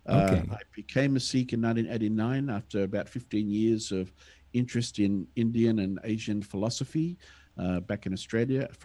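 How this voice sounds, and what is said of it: Australian accent. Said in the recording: “I have an Australian accent”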